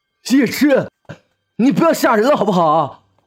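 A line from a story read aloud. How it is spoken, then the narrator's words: Frightened scream. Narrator (Chinese): 李月尖叫了一声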